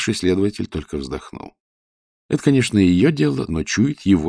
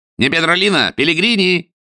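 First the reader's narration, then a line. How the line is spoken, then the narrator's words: Shouting after someone. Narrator (Russian): Вслед ему закричал Серджио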